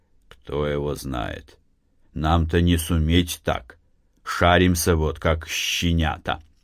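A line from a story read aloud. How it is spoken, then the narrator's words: Quiet reply. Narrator (Russian): Матвей отозвался тихо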